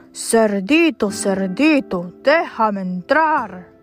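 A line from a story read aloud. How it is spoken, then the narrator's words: Growled. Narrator (Spanish): gruñó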